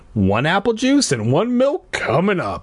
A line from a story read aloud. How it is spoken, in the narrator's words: she said cheerfully